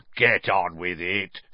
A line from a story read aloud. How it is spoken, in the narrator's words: sneered Moody